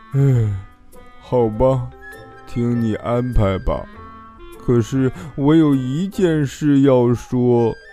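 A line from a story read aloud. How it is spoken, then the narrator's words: Sighing. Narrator (Chinese): 他叹了口气说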